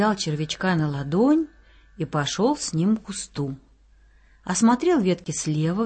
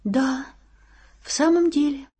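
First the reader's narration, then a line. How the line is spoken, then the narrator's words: Sad little worm. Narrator (Russian): грустно подтвердил червячок Игнатий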